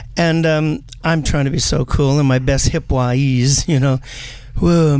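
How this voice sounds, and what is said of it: Usual voice. Nothing is said of it.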